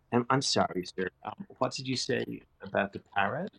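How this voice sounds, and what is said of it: Slight American accent. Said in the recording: “this slight American accent”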